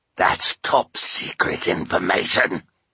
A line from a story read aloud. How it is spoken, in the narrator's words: Olaf growled